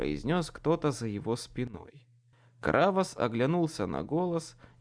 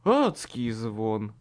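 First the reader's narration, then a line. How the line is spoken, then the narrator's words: Hoarse rasp. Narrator (Russian): прохрипел я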